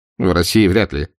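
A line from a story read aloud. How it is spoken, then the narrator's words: Skeptical snort. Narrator (Russian): хмыкнул Мюллер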